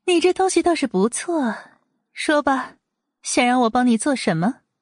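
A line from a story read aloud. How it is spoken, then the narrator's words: Soft, elegant young lady. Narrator (Chinese): 阮明心优雅得体的一笑，轻轻的开口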